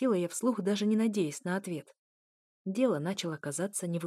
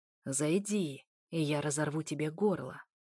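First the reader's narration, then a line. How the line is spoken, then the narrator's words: Growling. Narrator (Russian): Снова рычание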